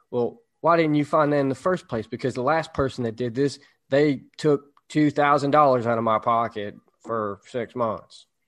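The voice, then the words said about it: Put-on country accent. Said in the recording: “I gave him a country accent”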